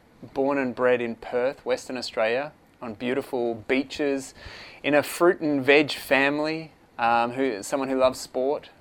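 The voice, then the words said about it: Australian accent. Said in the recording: “the accent will say Australia”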